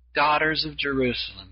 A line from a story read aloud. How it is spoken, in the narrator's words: he said